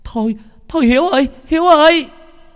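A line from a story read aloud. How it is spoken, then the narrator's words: Sudden shout, old woman. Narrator (Vietnamese): Bỗng nhiên có một bà hét lên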